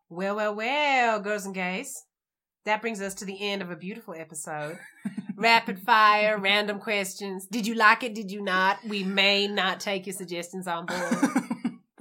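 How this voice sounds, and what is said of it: Attempted American southern drawl. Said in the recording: “That's a nice, that's a southern drawl. ... It's an attempt at a southern drawl.”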